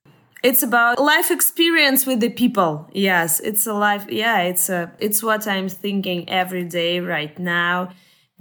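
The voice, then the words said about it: Speaker's own foreign accent. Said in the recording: “With my accent, it's true kick ass.”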